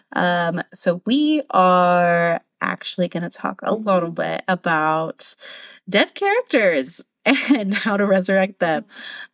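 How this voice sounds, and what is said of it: Sick, slightly wonky voice. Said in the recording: “I'm a little sick. So if my voice sounds a little wonky”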